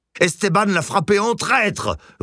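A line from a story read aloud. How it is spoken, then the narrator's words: Roared, red-faced. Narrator (French): rugit Sylvia, pivoine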